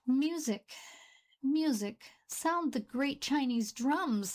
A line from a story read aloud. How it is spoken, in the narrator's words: cried